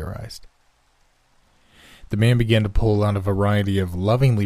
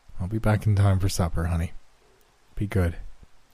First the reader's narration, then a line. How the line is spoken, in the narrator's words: he murmured